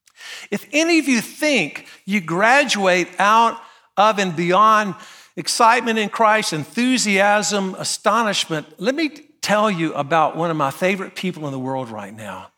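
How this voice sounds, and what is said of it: North Carolina accent. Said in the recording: “you already know from my accent... I'm from a little town called Graham, North Carolina.”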